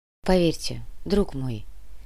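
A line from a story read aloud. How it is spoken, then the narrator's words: Soft gentle voice. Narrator (Russian): мягко произнес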